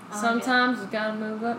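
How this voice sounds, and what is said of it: Put-on Southern accent. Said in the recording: “Why am I southern? ... I like the accent.”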